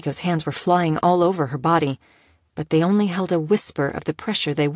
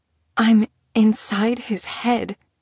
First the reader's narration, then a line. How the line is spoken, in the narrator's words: whispered shakily